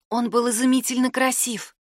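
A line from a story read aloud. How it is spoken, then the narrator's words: Whisper. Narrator (Russian): прошептала она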